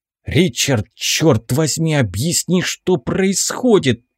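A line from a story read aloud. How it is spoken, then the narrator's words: Hissing in pain. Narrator (Russian): прошипел, морщась от боли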